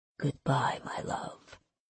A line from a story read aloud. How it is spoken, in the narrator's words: he whispered